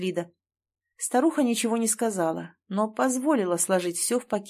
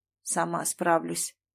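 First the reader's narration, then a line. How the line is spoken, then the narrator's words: Grumbled. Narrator (Russian): буркнула та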